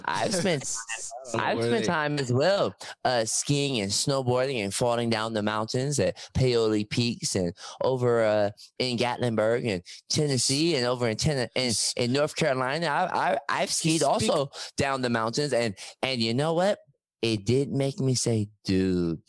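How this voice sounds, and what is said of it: Put-on stuck-up accent. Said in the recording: “He speaking like a awesome. Speaker like a he have a sticker stuck up in his ass. ... Don't interrupt my accent”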